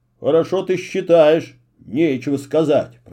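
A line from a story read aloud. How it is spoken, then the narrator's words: Grumbling father. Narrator (Russian): проворчал папа Эмиля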